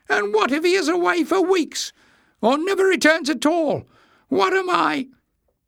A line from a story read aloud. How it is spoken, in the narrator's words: He squeaked